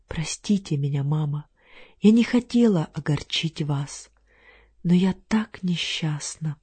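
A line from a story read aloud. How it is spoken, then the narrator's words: Whisper. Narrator (Russian): Клара прошептала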